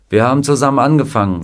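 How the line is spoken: Plain. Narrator (German): sagte er

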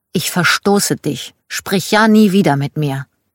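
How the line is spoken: Angry child speaking. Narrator (German): Schon als Kind war ich sehr wütend, zum Beispiel auf meine Tante, und ich erinnere mich, wie ich zu ihr sagte

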